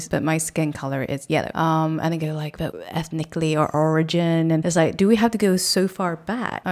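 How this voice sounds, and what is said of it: British accent. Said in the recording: “my accent, you know, it's obviously British”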